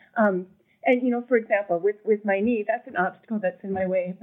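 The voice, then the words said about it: Choked-up, emotional voice. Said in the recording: “I get a little choked up.”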